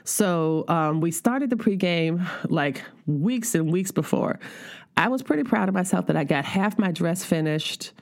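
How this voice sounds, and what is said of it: Tired-sounding voice. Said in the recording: “I don't know if y'all can hear it in my voice how tired I am.”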